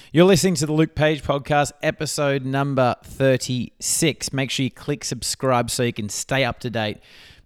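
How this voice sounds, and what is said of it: Croaky, slightly hoarse voice. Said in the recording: “My voice is a little bit croaky today ... I end up losing my voice”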